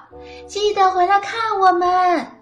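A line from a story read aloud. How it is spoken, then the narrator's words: Children calling out. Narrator (Chinese): 斯宾德一家的孩子们喊道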